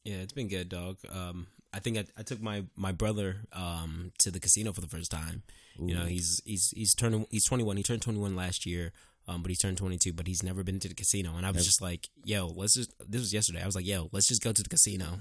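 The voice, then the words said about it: Talking very fast. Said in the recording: “you're talking really fast right now, like Busta Rhymes ... You literally just ran through that.”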